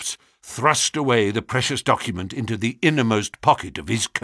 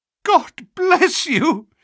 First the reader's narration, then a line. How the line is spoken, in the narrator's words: he cried